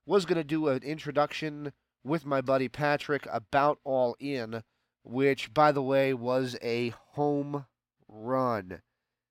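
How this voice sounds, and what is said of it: Sick, under-the-weather voice. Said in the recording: “Feeling a little under the weather, guys. You can probably hear that in my voice today.”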